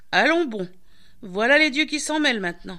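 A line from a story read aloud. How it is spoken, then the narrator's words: Exclaimed. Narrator (French): s'exclama Pramzis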